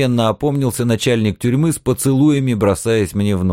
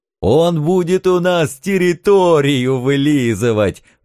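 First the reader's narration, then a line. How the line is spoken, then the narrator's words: Delighted howling devils. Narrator (Russian): восторженно взвыли черти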